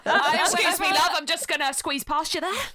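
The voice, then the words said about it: Put-on Cockney accent. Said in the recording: “a cockney accent”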